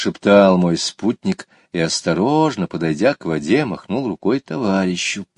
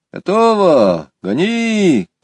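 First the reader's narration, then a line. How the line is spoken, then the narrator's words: Shouted. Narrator (Russian): крикнул сидевший в лодке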